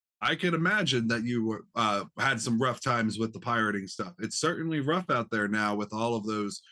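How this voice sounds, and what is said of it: Usual voice. Nothing is said of it.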